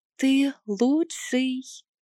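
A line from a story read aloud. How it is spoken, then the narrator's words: Barely audible whisper. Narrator (Russian): шепнула едва слышно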